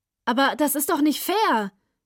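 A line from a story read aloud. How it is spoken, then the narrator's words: Calling out. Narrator (German): rief Simi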